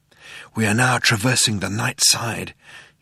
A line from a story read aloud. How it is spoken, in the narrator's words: said in a hushed voice